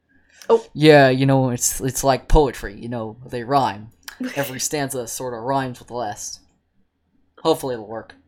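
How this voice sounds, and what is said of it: Bad George Lucas impression. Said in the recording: “probably very bad George Lucas impression”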